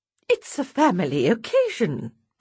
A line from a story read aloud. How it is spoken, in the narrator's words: puts in Mum brightly